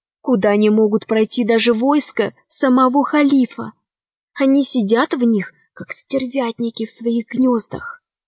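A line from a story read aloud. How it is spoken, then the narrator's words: Whisper. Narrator (Russian): шептала Мариам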